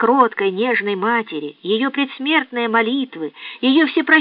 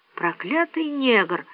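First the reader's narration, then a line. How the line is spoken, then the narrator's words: Muttering between gulps. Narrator (Russian): бормотал Легри между глотками пунша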